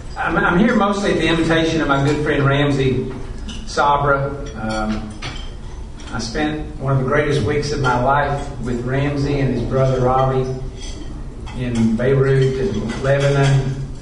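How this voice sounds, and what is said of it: Kentucky accent, sounds Texan. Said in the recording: “I've been in Kentucky my whole life, and when people try to guess my accent, they always say, "Are you from Texas?"”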